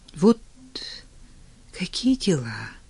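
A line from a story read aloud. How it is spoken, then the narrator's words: Barely audible. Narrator (Russian): еле слышно заговорила Лера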